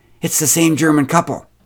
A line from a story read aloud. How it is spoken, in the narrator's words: exclaimed Karen